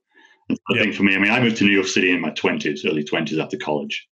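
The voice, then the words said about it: English accent. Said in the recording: “the accent ... having English accent in America”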